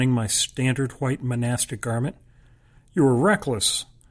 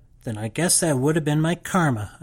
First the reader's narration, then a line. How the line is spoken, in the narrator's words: I snapped